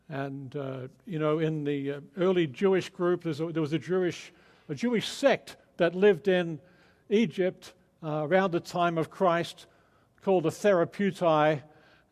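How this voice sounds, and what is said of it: Mixed Australian, English and American accent. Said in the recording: “my odd accent ... my Australian birth and upbringing, and then living over 20 years in England, and now living many years in America, including 12 years in Texas. So it's a kind of confused accent”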